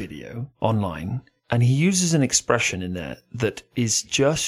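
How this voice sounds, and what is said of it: Usual voice. Nothing is said of it.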